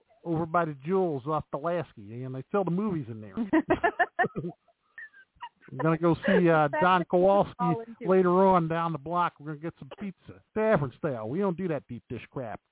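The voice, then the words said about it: Exaggerated Chicago accent. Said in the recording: “Are you letting your Chicago accent get in? ... because you have an accent? ... My Chicago accent going in.”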